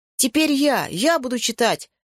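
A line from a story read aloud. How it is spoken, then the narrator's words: Shout. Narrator (Russian): крикнул Яша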